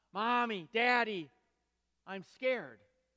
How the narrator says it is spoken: The little boy cried out

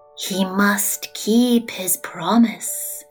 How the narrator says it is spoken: said the creature in a voice that sounded like a sigh

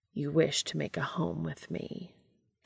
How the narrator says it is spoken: Castiel says softly

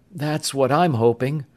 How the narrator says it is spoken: Bud said uneasily

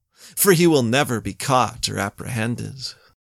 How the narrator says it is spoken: spat Raynaud

